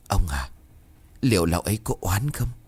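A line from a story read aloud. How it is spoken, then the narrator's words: Soft speech. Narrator (Vietnamese): Bà Khánh bấy giờ khẽ nói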